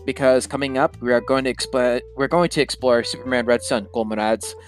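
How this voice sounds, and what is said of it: Put-on Russian accent. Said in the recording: “sorry for the Russian accent.”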